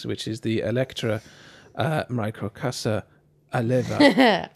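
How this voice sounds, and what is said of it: Smooth put-on Italian accent. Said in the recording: “just with my smooth Italian accent there. ... That was pretty sexy.”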